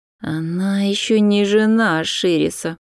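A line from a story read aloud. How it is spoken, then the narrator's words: Hiss from behind. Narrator (Russian): прошипел кто-то из-за ее спины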